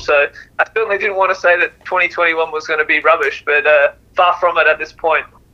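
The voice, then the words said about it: Speaker's own accent. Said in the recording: “I like to call them with my accent the Maya Camus”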